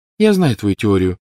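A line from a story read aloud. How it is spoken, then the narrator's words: Cold reply. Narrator (Russian): холодно откликнулась Лили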